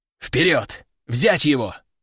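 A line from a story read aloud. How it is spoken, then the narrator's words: Growled command. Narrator (Russian): рыкнул командир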